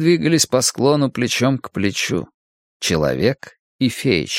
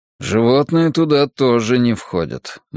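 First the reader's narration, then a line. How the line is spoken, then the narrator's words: Gloomy remark. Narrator (Russian): мрачно заметил Драккайнен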